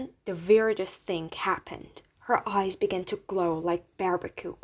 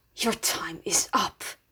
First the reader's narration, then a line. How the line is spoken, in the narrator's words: hissed